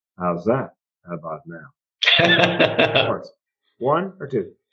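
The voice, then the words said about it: Impression of an eye doctor. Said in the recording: “my impression of an ophthalmologist or optometrist making love”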